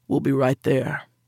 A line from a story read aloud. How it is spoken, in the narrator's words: Rex said, his voice flat